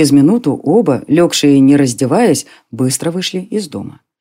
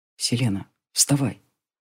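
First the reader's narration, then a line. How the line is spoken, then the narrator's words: Tender whisper. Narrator (Russian): Кто-то ласково провел по ее щеке пальцами и прошептал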